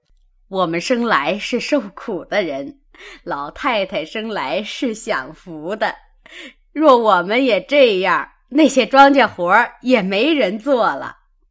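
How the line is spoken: Laughing. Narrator (Chinese): 刘姥姥笑道

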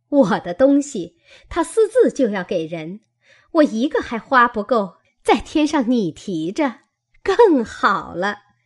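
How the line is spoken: Laughing. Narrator (Chinese): 凤姐笑道

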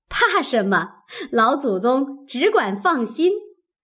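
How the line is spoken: Laughing. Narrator (Chinese): 凤姐笑道

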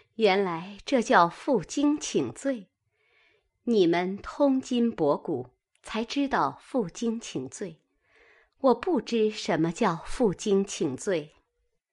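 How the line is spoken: Laughing. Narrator (Chinese): 宝钗笑道

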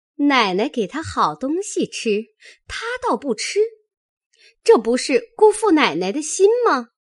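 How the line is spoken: Sly laugh. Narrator (Chinese): 说着 一笑

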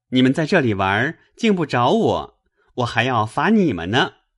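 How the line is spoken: Laughing. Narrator (Chinese): 宝玉笑道

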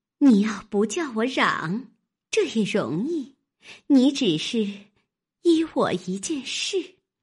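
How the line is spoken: Laughing. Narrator (Chinese): 笑道

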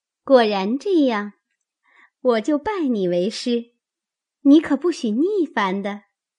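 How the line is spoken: Laughing. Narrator (Chinese): 香菱笑道

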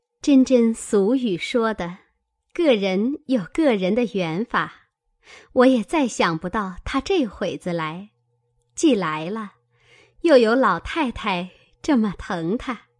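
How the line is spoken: Laughing. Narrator (Chinese): 宝钗笑道

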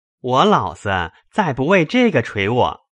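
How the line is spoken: Laughing. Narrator (Chinese): 宝玉笑道

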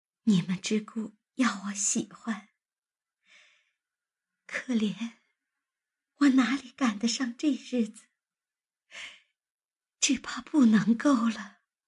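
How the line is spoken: Choked with sobs. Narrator (Chinese): 黛玉哽咽道

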